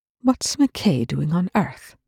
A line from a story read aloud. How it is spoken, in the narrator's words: Rush asked coolly